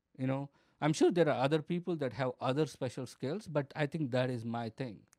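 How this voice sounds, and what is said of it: Noticeable foreign accent. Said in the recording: “my accent is what is making me funny ... my accent is more funny than my actual jokes”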